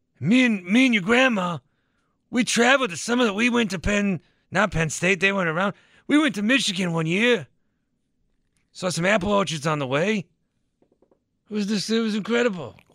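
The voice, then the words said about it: Old man voice, New England accent. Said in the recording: “Why'd you go from a Southern to like a New England? ... This is my old man voice. My grandpappy's from Boston.”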